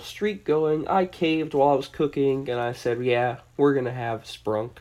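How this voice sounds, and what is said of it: Tired, just-woken-up voice. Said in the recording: “I sound a little tired right now, it's true. I just woke up”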